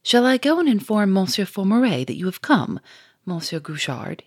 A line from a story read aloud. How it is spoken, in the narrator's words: he said